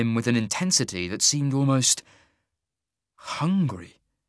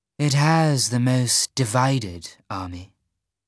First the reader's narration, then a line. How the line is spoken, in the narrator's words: Zator purred